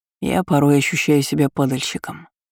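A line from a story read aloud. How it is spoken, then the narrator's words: Quiet confession. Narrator (Russian): тихо признался Эль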